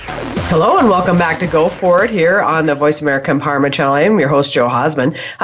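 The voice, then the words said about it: Congested, slightly rattled voice. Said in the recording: “I have a bad um, sinus infection. So if my voice sounds a little rattled”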